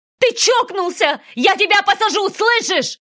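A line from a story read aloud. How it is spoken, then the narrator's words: Shouted, voice breaking. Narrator (Russian): крикнула уже срывающимся голосом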